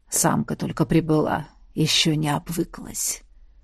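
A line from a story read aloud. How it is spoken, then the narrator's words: Husky whisper. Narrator (Russian): прошептал Габ с неопознанной хрипотцой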